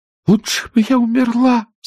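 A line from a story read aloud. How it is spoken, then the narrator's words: Sobbing with abandon. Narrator (Russian): самозабвенно всхлипывала она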